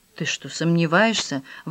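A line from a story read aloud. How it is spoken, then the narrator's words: Female exclamation. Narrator (Russian): воскликнула его жена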